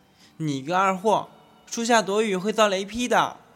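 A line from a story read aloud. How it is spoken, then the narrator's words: Shout. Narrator (Chinese): 他冲我大喊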